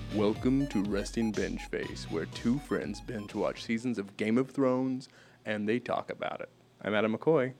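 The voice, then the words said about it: Moviefone announcer voice impression. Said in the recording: “That was ... movie phone voice.”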